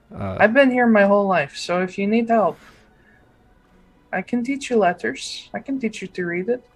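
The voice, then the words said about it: Character speaking with a foreign accent. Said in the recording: “It's my native language, if you can't tell by my accent.”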